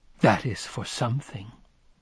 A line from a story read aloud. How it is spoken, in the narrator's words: whispered